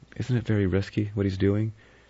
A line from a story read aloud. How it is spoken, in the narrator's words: Vera said anxiously